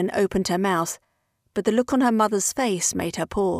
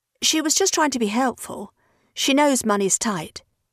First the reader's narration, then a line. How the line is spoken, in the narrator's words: she said